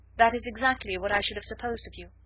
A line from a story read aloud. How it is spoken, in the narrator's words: said Elizabeth